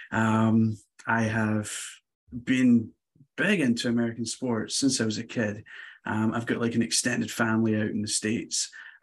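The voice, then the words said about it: Scottish accent, non-American. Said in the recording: “I am not American, as you can tell from the accent. So born in Scotland, in a small city called Glasgow.”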